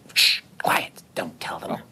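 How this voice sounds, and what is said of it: Whispering. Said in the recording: “You can't whisper in a company of us sisters.”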